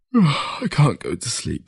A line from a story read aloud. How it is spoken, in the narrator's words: he said through a yawn